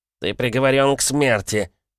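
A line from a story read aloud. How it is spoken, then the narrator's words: Nasal voice. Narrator (Russian): раздался гнусавый голос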